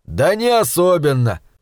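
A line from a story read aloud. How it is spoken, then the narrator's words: Plain. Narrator (Russian): ответил Пакер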